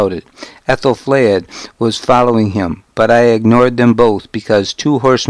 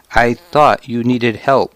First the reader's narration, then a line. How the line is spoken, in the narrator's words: he said